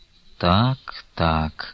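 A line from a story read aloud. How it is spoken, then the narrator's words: Slow, thoughtful. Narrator (Russian): медленно проговорил Стуколов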